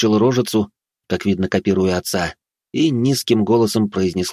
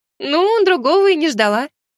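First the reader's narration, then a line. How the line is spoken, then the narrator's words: Laughing. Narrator (Russian): рассмеялась девушка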